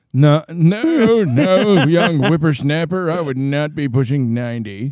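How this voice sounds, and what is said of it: Old man voice. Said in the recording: “you got a really good old guy impression. It's kind of scary.”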